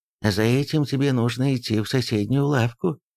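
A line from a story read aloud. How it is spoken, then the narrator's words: Sighing. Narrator (Russian): вздохнул Мусан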